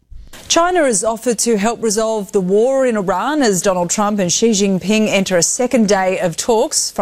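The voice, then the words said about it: Australian accent. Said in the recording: “I do like that Australian accent.”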